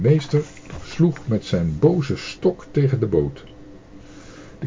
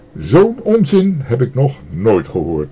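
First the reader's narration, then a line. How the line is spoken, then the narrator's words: Teacher's stern shout. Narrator (Dutch): riep de meester streng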